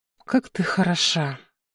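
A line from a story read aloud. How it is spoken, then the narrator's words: Breathless exhale. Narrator (Russian): Выдохнул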